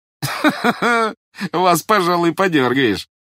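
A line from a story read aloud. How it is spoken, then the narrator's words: Laughing. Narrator (Russian): засмеялся Пожарский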